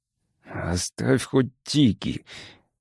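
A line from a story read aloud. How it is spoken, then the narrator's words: Mutter. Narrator (Russian): пробормотал он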